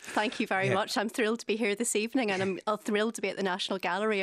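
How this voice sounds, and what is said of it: Slight Belfast accent. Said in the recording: “we can get a hint of the Belfast accent. A wee bit of a hint. ... it's still there.”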